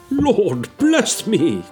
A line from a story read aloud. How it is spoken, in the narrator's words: cried the gentleman, as if his breath were taken away